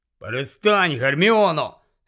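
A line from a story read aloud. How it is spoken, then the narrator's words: Angry grumble. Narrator (Ukrainian): сердито буркнув Рон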